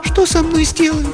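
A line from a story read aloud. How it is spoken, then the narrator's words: Thin voice, asking. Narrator (Russian): спросила она, тонким голосом, несмотря на свою решимость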